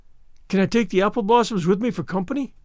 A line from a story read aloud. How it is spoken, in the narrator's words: pleaded Anne